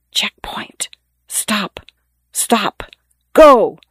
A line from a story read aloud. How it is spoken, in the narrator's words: The muffled voices whisper